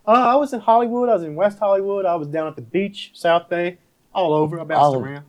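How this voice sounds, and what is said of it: Southern US accent. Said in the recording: “I'm from the South originally. You can hear the accent. It's there. ... He's from Tennessee.”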